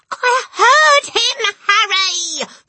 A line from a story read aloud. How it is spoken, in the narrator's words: the mother shrieked, still quaking